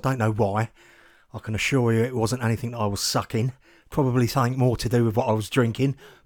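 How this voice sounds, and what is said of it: Hoarse, fading voice. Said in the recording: “excuse my voice tonight. I'm losing my voice. ... apologies for my voice, which is on the way out”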